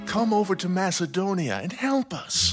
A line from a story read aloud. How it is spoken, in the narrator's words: A man of Macedonia pleaded with him